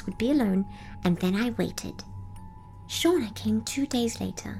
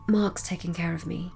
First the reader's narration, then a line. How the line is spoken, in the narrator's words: Celeste murmured under her breath